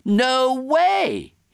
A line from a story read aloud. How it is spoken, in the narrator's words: shouted